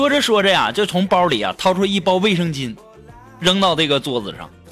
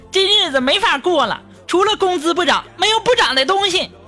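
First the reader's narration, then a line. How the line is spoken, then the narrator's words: Shouted complaint. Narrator (Chinese): 苏木从外面回来就在那喊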